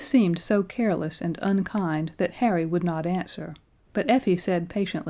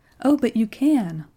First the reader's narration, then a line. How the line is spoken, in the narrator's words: cried Effie